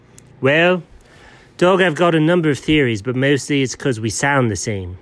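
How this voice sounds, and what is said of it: Poorly done British accent. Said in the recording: “A pretty terribly done British accent?”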